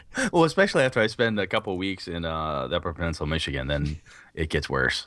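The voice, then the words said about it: Northern Wisconsin Northwoods accent. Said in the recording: “the slight Northwoods accent that comes through ... His accent is much thicker, eh?”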